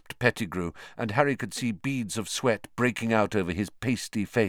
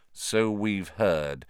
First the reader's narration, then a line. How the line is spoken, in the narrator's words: said Lupin more coldly